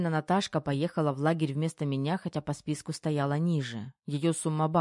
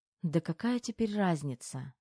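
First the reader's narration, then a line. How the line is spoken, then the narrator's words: Sigh. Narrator (Russian): вздохнула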